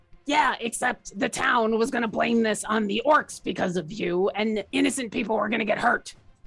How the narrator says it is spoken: Orkira's gonna growl out

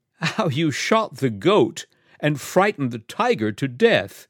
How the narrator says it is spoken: said Miss Mebbin, with her disagreeably pleasant laugh

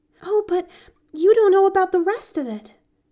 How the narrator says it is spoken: she reminded him eagerly

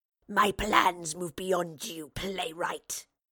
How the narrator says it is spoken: the wraith snarled

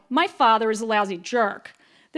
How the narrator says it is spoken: I yelled

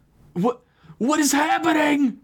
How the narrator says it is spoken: Father Marcus screamed out

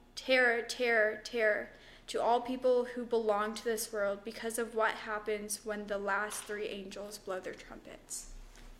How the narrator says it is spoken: a single eagle crying loudly as it flew through the air

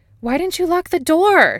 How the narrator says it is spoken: She screams

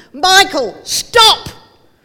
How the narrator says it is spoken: he heard Dad from a long way yelling

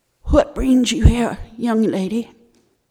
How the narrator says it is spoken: said in a rusty voice

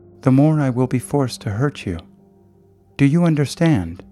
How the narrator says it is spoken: she said, still speaking in that calm, commanding tone

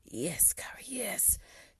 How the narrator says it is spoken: Cooper groaned

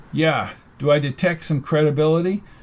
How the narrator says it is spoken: After a short silence, chuckled

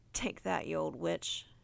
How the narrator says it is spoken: she chuckled

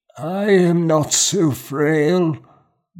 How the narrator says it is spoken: Gormgar said, his strained voice a croak

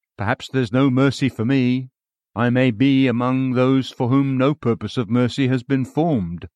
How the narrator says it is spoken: poor seekers mournfully say

